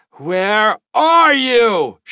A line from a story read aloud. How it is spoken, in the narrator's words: cried into the darkness